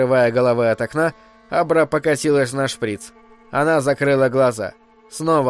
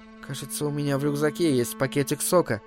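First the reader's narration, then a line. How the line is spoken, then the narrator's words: Hoarse half-whisper, girl. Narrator (Russian): пробормотала девочка хриплым полушепотом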